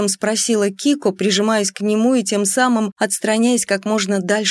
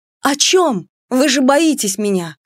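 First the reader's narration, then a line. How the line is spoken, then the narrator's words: Booming, uncontrolled exclamation. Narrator (Russian): Воскликнула я, не контролируя голос и сотрясая стены его грохотом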